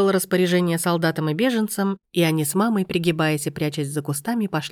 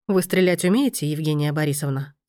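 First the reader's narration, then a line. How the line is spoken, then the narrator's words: Plain question. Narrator (Russian): спросил лейтенант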